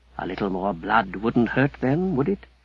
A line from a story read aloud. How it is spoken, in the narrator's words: the voice that whispered